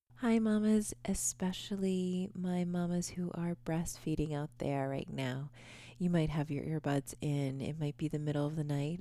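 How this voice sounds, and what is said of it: Speaking very softly, quietly. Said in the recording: “I'm talking so softly.”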